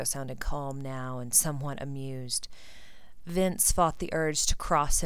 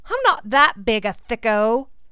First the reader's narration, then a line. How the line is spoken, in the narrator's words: Theo said indignantly